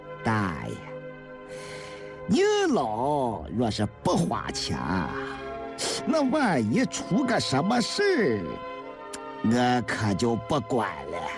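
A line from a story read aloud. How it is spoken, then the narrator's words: Cold sneer. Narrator (Chinese): 韩六十三冷笑了一声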